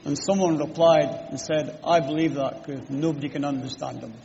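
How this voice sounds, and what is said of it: Scottish accent. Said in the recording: “in case my accent confuses you, I'm a Scot. I'm not Welsh. I'm not Irish. I'm a Scotsman.”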